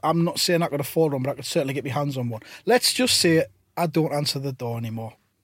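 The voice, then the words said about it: Northern English accent. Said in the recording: “you have that kind of northern style accent that's proving very popular these days on television”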